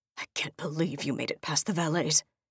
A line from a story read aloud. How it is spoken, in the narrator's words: he mutters